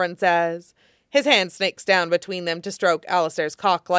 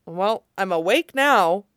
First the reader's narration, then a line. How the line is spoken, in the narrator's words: Alistair says, trying to match Zevran's disinterested tone and failing miserably and not caring at all